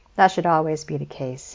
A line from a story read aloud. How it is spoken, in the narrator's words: said with a light laugh, to cover up his attraction to his ex-classmate